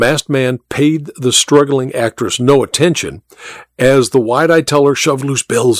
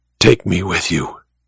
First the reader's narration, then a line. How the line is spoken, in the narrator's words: she whispered